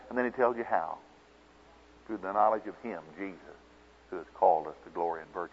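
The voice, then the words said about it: Oklahoma accent. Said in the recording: “This accent is not bothering you, is it? This Oklahoma accent?”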